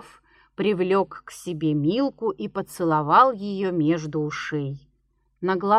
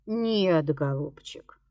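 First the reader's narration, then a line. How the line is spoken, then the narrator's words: Sighing. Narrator (Russian): вздохнул Кнапс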